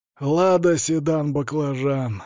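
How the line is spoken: Snide drawl. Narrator (Russian): ехидно протянул он

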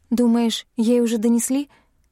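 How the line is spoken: Frightened question. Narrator (Russian): испуганно интересуюсь я

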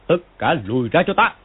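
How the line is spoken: Loud shout. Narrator (Vietnamese): Công Tôn Chỉ quát to

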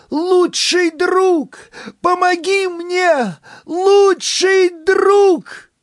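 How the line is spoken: Full-throated shout. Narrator (Russian): Я прокашлялась и, набрав в легкий воздух, во все горло крикнула

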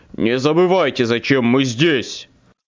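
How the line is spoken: Leader growling. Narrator (Russian): рыкнул главарь

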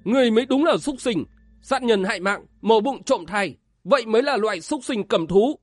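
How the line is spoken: Angry shout. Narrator (Vietnamese): Vân Giật Long tức giận quát lên

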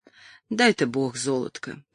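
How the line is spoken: Sigh. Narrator (Russian): вздохнула Касси

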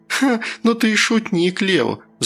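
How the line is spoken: Laughing. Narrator (Russian): засмеялась она

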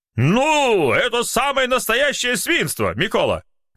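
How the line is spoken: Writer shouting. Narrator (Russian): закричал один из литераторов

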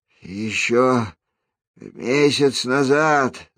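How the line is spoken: Moaning from behind. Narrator (Russian): застонал у него за спиной Кагыр

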